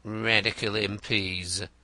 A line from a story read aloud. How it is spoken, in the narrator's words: murmured Wimp, smiling